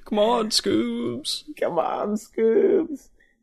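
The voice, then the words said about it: Cartoon character voice impression. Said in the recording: “How's your Shaggy? ... Oh, good lord ... it's terrible”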